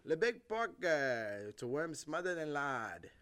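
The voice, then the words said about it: Comic put-on accent. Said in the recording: “I'm gonna do a different accent for every worm.”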